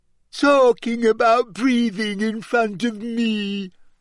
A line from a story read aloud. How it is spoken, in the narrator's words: she said shrilly, and her voice echoed loudly around the bathroom